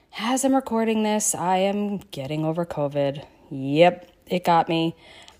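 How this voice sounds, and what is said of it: Slightly scratchy voice. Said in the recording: “my voice might be a little bit scratchy today... my voice isn't still feeling too great”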